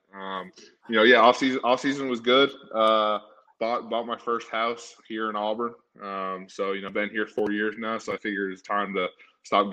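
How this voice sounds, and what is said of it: Slight Southern drawl. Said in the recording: “You got a little Southern drawl... I definitely heard it when you said Auburn. Auburn was like perfect... Auburn's going to win the football game type of accent”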